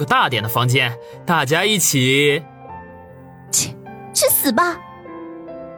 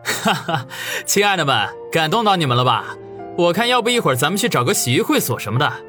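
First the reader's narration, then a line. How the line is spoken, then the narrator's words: Hearty laughing. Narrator (Chinese): 不禁哈哈笑道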